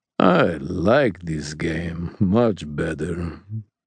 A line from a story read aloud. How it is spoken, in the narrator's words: he said in something like a purr